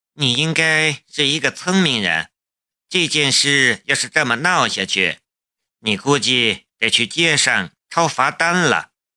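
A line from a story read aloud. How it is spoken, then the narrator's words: Calm, flat. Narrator (Chinese): 龙兵淡淡的道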